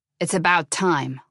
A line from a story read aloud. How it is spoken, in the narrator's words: Lebensmal said irritably